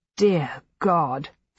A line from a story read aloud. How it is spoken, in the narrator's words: Mary Rawlinson muttered